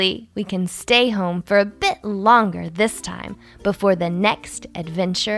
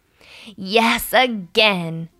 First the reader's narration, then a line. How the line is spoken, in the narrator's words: Buffy laughed